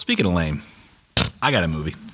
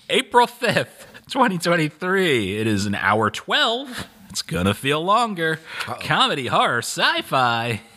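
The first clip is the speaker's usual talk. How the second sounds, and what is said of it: Announcer-style radio voice. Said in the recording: “You can tell when I go into the radio voice”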